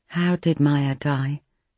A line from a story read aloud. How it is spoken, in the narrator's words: Nikki asked softly